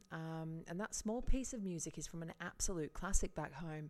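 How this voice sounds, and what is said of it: Yorkshire accent. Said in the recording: “I'm originally from Yorkshire. You might have picked that up with my accent.”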